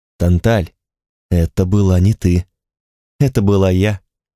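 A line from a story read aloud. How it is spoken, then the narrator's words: Flat colorless voice. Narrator (Russian): отозвалась она бесцветным ровным голосом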